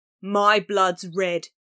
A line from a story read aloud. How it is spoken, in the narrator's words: A bald man, doomed to die, roared